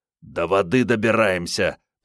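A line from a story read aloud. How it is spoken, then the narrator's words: Hoarse wheeze. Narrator (Russian): прохрипел Андрей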